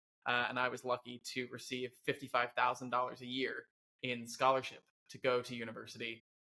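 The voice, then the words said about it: Speaks with a noticeable accent. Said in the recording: “I'm sure everyone has heard the accent already”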